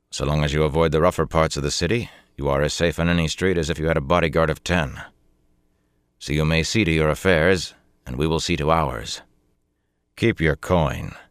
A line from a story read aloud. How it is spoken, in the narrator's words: he added coldly